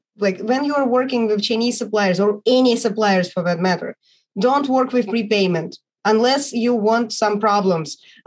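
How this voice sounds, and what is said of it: Non-native English accent. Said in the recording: “your English is great ... I'm still working on my accent and trying to pronounce it correctly”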